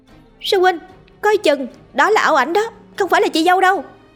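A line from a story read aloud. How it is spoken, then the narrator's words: Frantic scream. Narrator (Vietnamese): một giọng hét thất thanh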